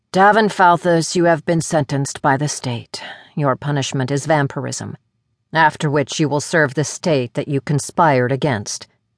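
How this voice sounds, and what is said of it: Flat, detached droning voice. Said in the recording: “The supervisor droned in a detached voice.”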